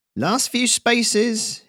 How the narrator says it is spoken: shouted, high and clear

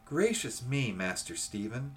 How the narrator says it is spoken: she broke forth rather irritably

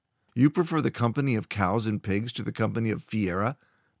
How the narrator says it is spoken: Moordan asked with a derisive laugh

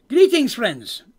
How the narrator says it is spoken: Cole exclaims

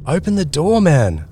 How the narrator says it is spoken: I yelled

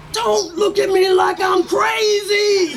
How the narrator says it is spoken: he yelled, using his full voice

